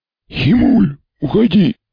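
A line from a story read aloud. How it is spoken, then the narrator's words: Lost, creaky voice. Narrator (Russian): потерянно проскрипел Мармелад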